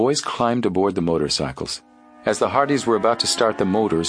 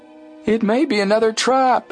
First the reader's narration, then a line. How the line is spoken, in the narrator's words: Chet yelled after them